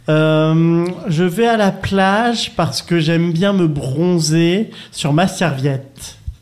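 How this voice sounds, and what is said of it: Put-on Provençal (PACA) French accent. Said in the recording (French): “un petit accent PACA”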